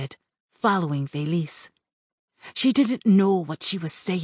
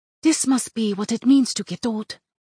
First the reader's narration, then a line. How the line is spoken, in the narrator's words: Felice said, in her usual urgent voice, which sometimes blurred the words when she was speaking